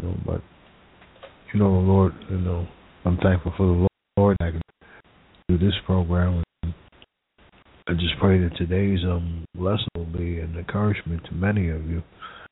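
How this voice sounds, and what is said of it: Voice sounds a little different. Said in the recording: “If my voice sounds a little different, it's because I battle an allergy right now.”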